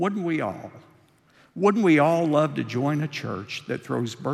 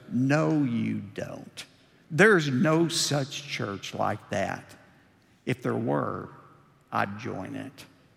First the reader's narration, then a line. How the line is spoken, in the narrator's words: Harry almost sneered as he answered